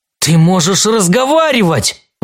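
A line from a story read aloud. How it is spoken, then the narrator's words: Exclaiming. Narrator (Russian): воскликнул Уильям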